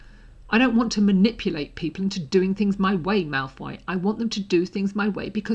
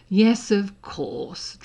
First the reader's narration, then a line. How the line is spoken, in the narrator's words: Draco sneered